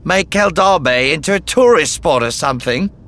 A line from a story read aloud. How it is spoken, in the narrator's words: He roared with laughter